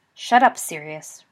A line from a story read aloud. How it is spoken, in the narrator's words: Remus said sharply